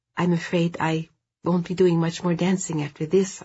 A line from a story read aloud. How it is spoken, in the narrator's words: I said